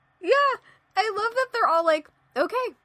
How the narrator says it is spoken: Cassie yelled at me

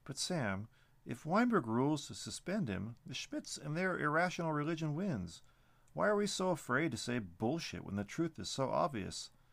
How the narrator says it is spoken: Danielson chuckled

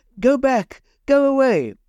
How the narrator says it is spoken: The woman started shouting

